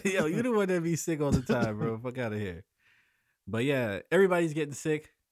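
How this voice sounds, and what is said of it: Slightly hoarse, losing voice. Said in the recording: “Kind of losing my voice a little bit.”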